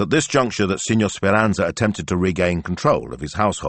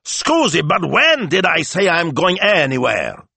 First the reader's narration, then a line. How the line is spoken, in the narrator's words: he roared